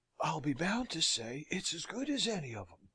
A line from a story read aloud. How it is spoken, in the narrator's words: whispers Harry to his neighbor